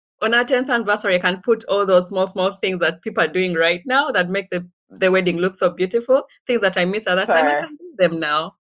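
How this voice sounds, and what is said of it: Ugandan-accented English. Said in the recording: “you have this beautiful accent”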